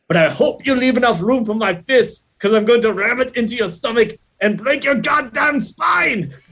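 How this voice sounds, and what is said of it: Arnold Schwarzenegger impression. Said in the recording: “you weren't going to impersonate his voice and then you impersonated his voice ... you can't say that line without doing a little bit of Arnold”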